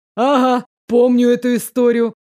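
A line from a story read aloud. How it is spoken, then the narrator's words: Giggling. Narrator (Russian): хихикнула Эльза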